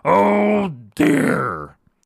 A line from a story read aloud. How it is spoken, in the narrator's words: the lion howled and roared and said